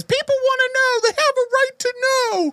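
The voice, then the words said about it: Impression of Linda Blair's reporter. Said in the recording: “That's a pretty good impression.”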